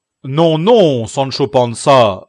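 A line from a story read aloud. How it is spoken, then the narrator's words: Exclaimed. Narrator (French): s'écria le barbier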